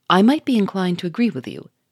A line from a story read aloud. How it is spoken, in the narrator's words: Henry Westwick answered sternly